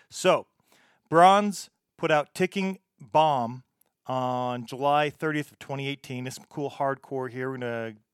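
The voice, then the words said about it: American accent. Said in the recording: “I am just going to talk with the American accent that I have”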